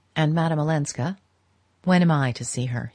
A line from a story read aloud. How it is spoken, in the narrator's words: he said